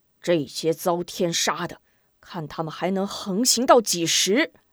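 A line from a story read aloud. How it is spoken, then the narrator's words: Angry, through gritted teeth. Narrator (Chinese): 吴夫人气得咬牙切齿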